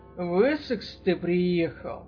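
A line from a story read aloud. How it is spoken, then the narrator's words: Quiet speech. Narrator (Russian): негромко сказал Рой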